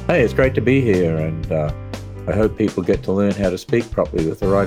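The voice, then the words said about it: Australian accent. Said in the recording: “but I certainly don't sound Australian ... the, the accent it just”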